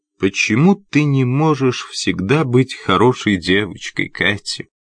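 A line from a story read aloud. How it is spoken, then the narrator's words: Plain. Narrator (Russian): спросил он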